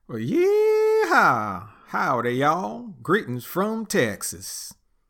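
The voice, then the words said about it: Put-on Texas accent. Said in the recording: “That was a little bit of a Texas accent”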